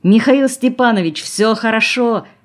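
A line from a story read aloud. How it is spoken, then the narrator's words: Shouted. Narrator (Russian): крикнул Юрка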